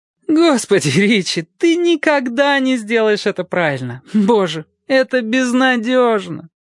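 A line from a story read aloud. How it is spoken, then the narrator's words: Laughing. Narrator (Russian): Однако она смеялась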